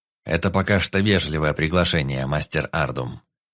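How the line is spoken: Deep booming voice. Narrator (Russian): пробасил здоровяк

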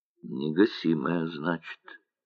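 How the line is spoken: Quiet speech. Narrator (Russian): тихо говорил Мануил

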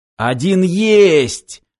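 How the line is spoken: Joyful roar. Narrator (Russian): радостно взревел Аршинов

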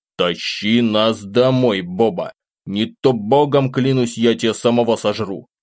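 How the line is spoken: Sullen, through teeth. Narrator (Russian): процедил из-под лобья

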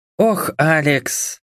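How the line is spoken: Resigned sigh. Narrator (Russian): обреченно вздохнула девушка

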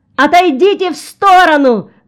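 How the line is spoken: Cameraman shouting. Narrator (Russian): закричал кинооператор

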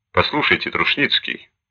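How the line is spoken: Quick, wet mumbling speech. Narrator (Russian): быстро заговорил Диц, слюняво сжевывая черный табак сигареты

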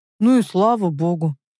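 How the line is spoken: Relieved exhale. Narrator (Russian): Руслан с облегчением выдохнул

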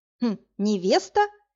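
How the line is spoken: Snorting. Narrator (Russian): хмыкнула Машка

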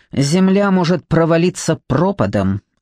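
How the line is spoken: Snapping retort. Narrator (Russian): огрызнулся Павел

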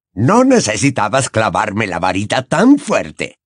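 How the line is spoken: Grumbling. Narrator (Spanish): refunfuñó

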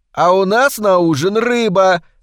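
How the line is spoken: Loud yelling. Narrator (Russian): заорала Палмер

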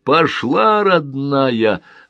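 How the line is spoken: Joyful exclamation. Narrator (Russian): радостно воскликнул Титов

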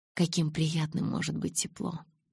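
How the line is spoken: Sigh. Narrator (Russian): вздохнул он

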